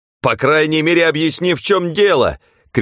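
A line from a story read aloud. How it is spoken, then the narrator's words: Shouting. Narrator (Russian): крикнул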